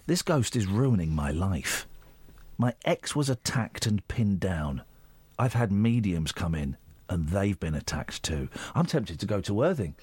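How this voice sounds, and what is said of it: Put-on voice reading a quote. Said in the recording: “do the voice”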